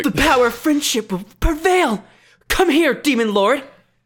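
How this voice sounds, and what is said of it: Dramatic powering-up anime hero voice. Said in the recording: “can you do that voice, but, like as an increase of power, like, when they're, like, leveling up and they're about to, like, fight some demon”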